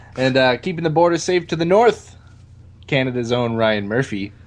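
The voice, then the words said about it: Slight put-on Canadian accent. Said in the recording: “you even slipped into a bit of an accent there. Your traditional Canadian.”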